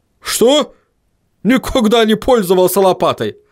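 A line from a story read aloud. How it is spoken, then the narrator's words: Angry dwarf barking. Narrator (Russian): рявкнул рассерженный гном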